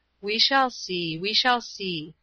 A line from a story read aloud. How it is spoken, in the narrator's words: said my father gently